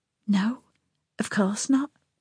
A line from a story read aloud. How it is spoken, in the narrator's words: whispered back